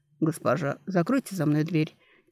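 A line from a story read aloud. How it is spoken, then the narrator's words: Quiet reminder. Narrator (Russian): тихо напомнил оборотень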